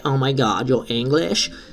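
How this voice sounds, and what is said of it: Put-on American accent. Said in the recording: “That was my American impression”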